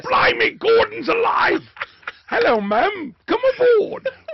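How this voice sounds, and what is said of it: Gruff put-on English character voice. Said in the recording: “sound a little put on... you don't like the gruffness... It just sounds like a character... You sound like Brian Blessed... He's a very famous English actor who sounds exactly like that”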